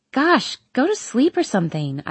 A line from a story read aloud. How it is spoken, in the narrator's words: I exclaim